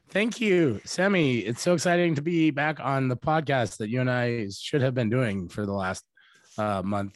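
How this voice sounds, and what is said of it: Raspy, strained voice. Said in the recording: “my voice is just, as everybody can tell ... the Brian Brown version of Steve-O”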